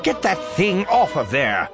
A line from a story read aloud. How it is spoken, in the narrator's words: snarls